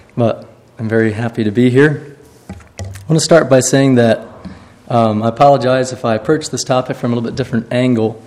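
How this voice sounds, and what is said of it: Poor-sounding, worn voice. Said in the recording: “his voice sounds bad. Mine's worse.”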